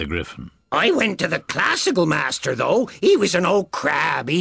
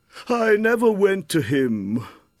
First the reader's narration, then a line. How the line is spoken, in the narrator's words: the Mock Turtle said with a sigh